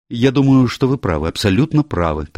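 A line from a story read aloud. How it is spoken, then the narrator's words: Hurried woman. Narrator (Russian): торопливо заговорила женщина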